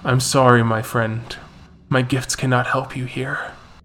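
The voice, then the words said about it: Deep-voiced character voice. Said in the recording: “in his deep voice. He's a large Native American man”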